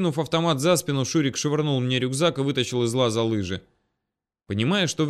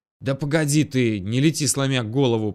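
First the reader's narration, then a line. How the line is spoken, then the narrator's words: Hoarse wheeze. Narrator (Russian): прохрипел я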